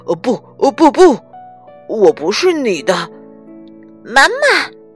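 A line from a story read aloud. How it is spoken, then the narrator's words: Louder shout, small child. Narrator (Chinese): 那个小不点儿又用更响的声音喊了一遍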